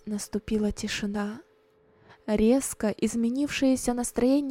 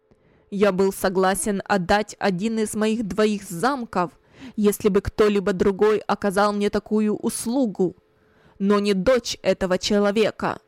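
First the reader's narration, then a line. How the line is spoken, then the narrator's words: Loud, angry. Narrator (Russian): громко, злобным голосом сказал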